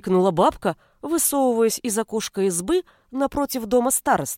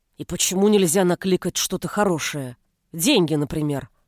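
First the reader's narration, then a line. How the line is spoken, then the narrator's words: Grumble. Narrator (Russian): Проворчала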